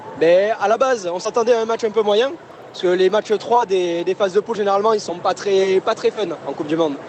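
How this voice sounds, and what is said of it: Southern French accent. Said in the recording (French): “on va reconnaître votre accent, vous êtes de Toulouse. ... Un peu, l'accent du sud.”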